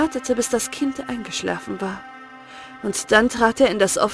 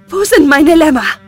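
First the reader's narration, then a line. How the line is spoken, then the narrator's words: Breathless question. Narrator (German): fragte sie atemlos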